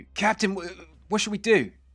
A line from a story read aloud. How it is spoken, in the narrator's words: Gortusk kind of shouts to you